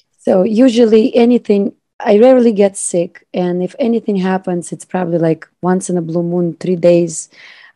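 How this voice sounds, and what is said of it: Weakened, recovering voice. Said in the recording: “my voice is kind of coming back”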